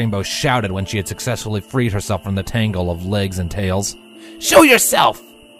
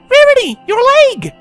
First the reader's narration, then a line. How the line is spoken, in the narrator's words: She cried